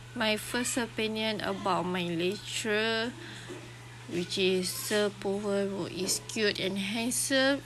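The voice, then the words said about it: Sick, feverish-sounding voice. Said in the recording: “sorry for my voice right now because currently I'm having a fever”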